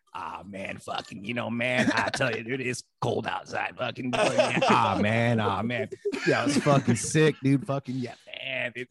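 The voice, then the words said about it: Imitates another person's voice. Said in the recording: “Here's my impression of Eric Rutan.”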